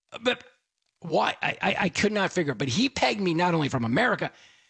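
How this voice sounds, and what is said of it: Usual voice. Nothing is said of it.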